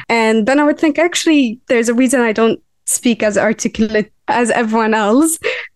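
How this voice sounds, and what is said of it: Mixed Lebanese, Gulf Arabic and British accent. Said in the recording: “my accent is different, because my accent is a mix of like Lebanese, and also growing up in Abu Dhabi where there's many different Arabs from different countries, and then also moving to the UK”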